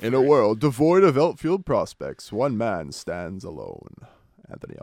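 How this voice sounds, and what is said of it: Mediocre movie trailer voice. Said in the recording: “You gotta work on that movie trailer voice, man. ... Yeah, it's not great.”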